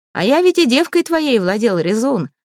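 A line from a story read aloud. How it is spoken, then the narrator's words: Laughing. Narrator (Russian): засмеялся Дир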